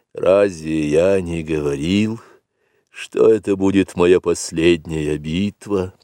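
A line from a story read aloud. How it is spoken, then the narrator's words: Whispering. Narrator (Russian): прошептал Акела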